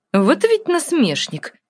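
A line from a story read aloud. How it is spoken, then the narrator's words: Angry grumbling. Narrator (Russian): Сердито проворчала Гротта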